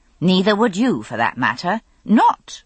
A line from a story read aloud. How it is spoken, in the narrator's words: I added hastily